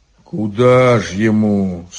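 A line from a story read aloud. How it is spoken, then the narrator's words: Sad question. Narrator (Russian): спросил Илья грустно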